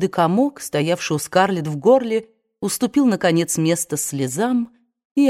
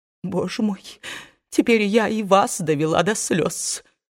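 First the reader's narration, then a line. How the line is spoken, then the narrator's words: Sobbing. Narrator (Russian): всхлипнула тетушка Питтипэт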